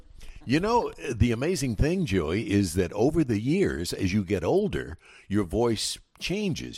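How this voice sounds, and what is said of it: Rich broadcaster radio voice. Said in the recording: “What a great radio voice.”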